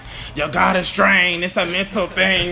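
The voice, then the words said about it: Impression of a football coach. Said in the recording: “do an impression of him? I heard you do pretty good impressions of Coach Rock”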